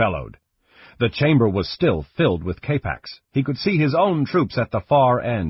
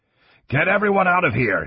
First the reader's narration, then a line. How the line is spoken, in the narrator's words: he shouted again